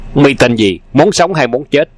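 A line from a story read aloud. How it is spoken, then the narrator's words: Loud scolding shout. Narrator (Vietnamese): lớn tiếng quát nạt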